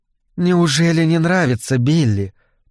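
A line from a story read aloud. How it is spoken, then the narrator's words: Velvety voice, hidden steel. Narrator (Russian): проговорила она бархатным голосом, под которым чувствовалась сталь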